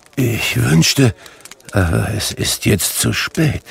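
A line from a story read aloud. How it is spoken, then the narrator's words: Murmured. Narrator (German): murmelte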